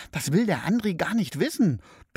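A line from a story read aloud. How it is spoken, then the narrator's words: Hissing. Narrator (German): zischt Brenda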